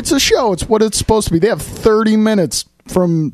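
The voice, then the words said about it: Sick-sounding, terrible voice. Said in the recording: “You sound terrible ... Do I sound like I maybe might have caught a cold from someone?”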